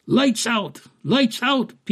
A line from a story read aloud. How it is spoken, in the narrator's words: people cried